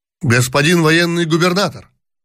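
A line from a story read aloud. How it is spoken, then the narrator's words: Shouted. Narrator (Russian): крикнул кто-то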